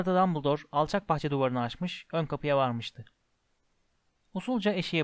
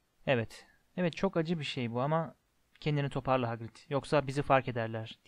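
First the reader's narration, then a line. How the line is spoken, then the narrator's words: Whispering. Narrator (Turkish): diye fısıldadı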